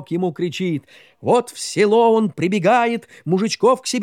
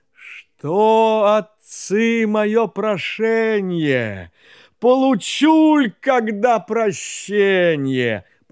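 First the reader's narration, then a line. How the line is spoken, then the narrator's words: Sighing, great whale-creature. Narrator (Russian): Чудо-юдо, рыба-кит, так вздохнувши, говорит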